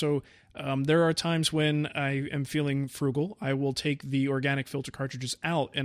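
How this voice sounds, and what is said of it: Usual voice. Nothing is said of it.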